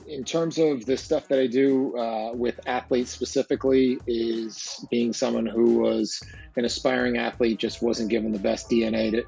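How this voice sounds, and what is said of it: New Jersey accent. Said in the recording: “my exotic accent, I am from New Jersey ... it's a little bit easy to pick out of a crowd when you hear my accent”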